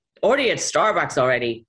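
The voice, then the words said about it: Bad put-on Nebraska accent. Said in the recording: “that was a bad Nebraska accent.”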